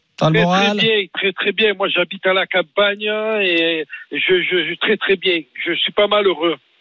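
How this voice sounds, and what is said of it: Strong regional French accent. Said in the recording (French): “bel accent”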